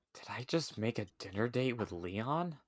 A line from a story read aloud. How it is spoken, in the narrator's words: Ashley said under her breath